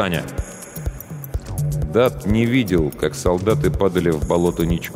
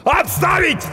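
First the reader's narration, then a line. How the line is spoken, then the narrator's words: Yelled. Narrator (Russian): орал очнувшийся от ступора доктор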